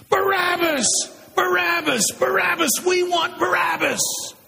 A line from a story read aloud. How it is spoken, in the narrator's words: as with one voice, the crowd screamed out my name